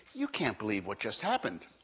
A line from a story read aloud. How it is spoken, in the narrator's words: she'll say excitedly